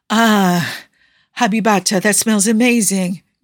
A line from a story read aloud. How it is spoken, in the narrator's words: Yusuf moaned